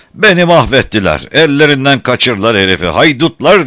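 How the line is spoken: Shouting. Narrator (Turkish): diye bağırıyordu

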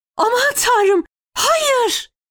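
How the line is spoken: Crying out. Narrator (Turkish): diye haykırdı Fevzi

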